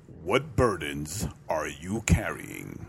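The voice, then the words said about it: Announcer-style radio voice. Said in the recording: “Radio voice.”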